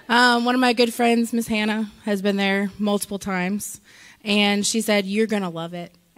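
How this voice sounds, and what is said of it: Hoarse, worn-out voice. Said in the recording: “My voice, I was there. If you don't lose your voice, you weren't really there.”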